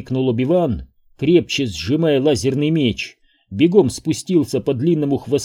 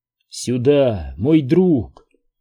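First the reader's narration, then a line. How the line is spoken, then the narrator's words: Gentle, affectionate. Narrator (Russian): ласково говорил Куай-Гон своему верховому драйгону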